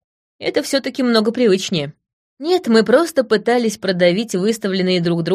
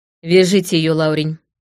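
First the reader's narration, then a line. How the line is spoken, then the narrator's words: Hoarse. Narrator (Russian): сказала я хрипло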